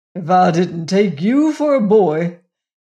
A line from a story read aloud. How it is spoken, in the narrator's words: he exclaimed